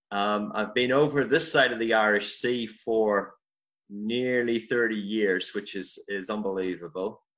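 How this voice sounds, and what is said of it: Northern Irish accent. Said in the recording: “as you probably picked up from the accent, I'm from Ireland originally, um, Northern Ireland, County Armagh”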